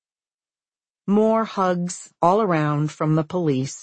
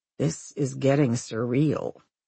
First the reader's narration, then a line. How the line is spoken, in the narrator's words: Susan mutters